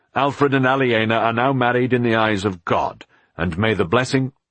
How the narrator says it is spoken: The priest frowned crossly and said

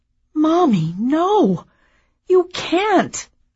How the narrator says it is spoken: I cried

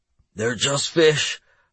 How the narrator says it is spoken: I wheezed

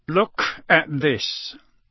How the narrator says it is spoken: he growled

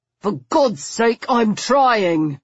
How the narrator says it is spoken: said through gritted teeth

